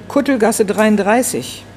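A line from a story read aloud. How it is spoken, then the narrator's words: Calling out. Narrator (German): Herr Niedermeyer rief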